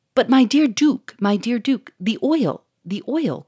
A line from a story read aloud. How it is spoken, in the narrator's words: cried the millionaire, in a tone of bitter distress